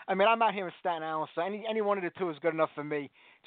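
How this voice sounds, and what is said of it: Staten Island New York accent. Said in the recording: “I knew that accent was Staten Island.”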